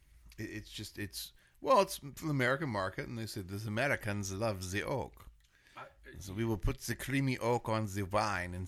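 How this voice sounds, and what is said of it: Poor Spanish accent sounding French. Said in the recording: “That's more French, isn't it, that accent? I don't have a Spanish accent that isn't offensive ... I still sound French ... Terrible.”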